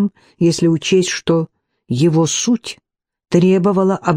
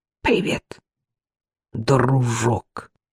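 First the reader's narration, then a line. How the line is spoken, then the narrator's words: Muttering. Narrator (Russian): пробормотал Гурин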